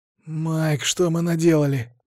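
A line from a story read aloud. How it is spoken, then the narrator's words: Hoarse rasp. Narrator (Russian): прохрипел Кевин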